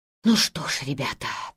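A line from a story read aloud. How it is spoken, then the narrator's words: Whispered. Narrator (Russian): прошептал он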